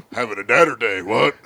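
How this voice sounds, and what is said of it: Imitates another person's voice, badly. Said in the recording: “I've been doing bad Austins... Terrible Austins”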